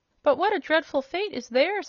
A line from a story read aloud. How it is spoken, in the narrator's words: exclaimed Ozma earnestly